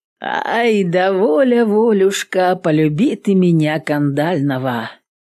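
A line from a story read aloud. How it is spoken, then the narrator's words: Hoarse singing. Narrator (Russian): Затянул хрипло Пугас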